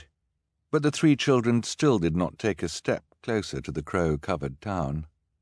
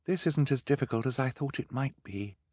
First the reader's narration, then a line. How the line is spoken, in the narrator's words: Violet said, in a quiet voice, so as not to disturb the crows closest to her